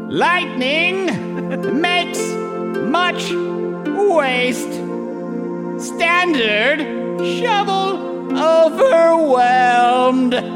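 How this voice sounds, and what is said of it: Weird poet character voice. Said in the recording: “in a funny voice ... something weird and different ... a poet man reading”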